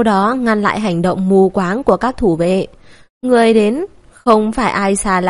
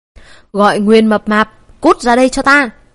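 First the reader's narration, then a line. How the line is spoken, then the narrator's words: Shouting. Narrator (Vietnamese): La Thu quát lên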